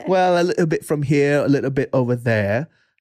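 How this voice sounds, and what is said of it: Put-on hard-to-place accent. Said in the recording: “you can't tell from my accent ... What is that accent?”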